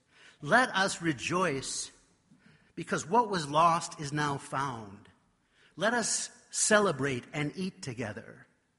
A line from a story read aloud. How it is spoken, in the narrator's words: My dad said in a loud voice